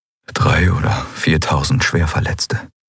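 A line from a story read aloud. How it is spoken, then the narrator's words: Quiet. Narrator (German): sagte Kai leise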